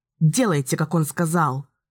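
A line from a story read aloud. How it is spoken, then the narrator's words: Growled. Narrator (Russian): прорычала Ники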